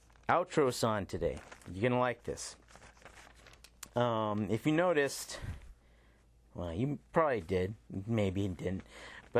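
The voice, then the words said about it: Breathless, out of breath. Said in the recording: “running out of breath”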